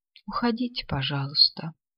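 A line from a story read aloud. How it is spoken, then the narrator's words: Quiet. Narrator (Russian): тихо сказала Клара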